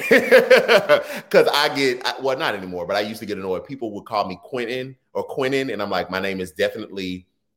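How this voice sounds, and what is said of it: Texas twang accent. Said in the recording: “my Texas twang,”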